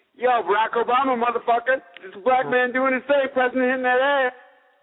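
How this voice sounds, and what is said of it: Barack Obama impression, Leon-style. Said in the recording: “doing your Barack Obama impression ... my best Leon impression”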